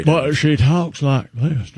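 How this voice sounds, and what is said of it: Put-on Southern accent. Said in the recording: “I don't know why I'm using a Southern accent.”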